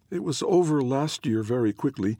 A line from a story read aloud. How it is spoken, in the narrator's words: the other twin said in a hopeful tone